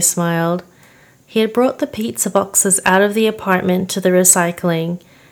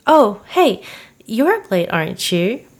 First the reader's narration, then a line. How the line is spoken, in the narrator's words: Theo chuckled